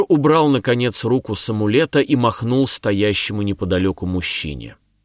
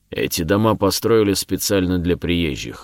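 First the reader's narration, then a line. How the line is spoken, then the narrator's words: Gruff grumble. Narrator (Russian): буркнул воин с секирой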